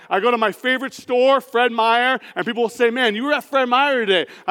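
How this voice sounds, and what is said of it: Loud voice. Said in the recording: “how loud my voice is ... my loud voice”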